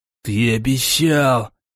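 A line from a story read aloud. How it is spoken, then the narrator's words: Sudden wheeze. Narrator (Russian): вдруг захрипел Борзун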